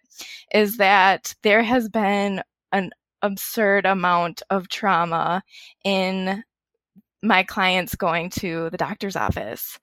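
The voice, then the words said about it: Choked up, emotional voice. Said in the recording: “getting choked up right now and emotional”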